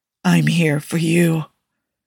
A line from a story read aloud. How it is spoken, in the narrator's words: Steve said, trying to keep his voice steady even as the words nearly choked him